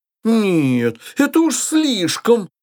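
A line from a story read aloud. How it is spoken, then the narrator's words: Exclaimed. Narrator (Russian): воскликнула госпожа Штальбаум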